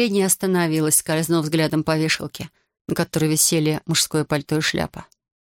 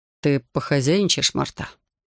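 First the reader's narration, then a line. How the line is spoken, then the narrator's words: Quiet. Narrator (Russian): сказала негромко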